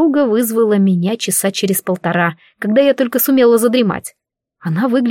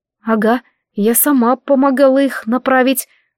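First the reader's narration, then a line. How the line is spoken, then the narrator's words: Horrified gasp. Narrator (Russian): выдохнула я в ужасе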